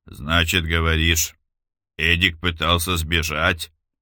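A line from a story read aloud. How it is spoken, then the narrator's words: Grumbling mutter. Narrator (Russian): пробурчал Яков Матвеевич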